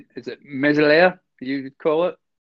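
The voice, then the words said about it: French pronunciation in Scottish accent. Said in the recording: “excuse my Scottish French accent”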